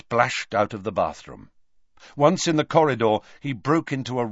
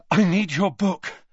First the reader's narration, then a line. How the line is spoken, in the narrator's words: Harry panted